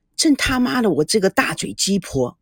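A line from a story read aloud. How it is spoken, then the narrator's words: Self-reproachful muttering. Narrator (Chinese): 吴梦玲喃喃自语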